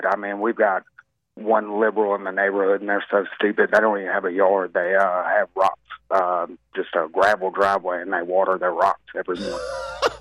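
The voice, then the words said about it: Nervous-sounding voice. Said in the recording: “I don't know if you can tell by my voice, I'm kind of nervous”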